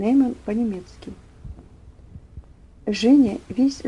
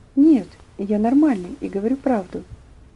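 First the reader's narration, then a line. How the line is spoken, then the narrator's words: Quiet trembling voice. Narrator (Russian): Тихим, дрожащим голосом он ответил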